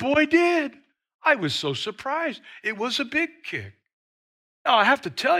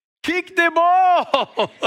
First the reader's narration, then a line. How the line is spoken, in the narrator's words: dad is yelling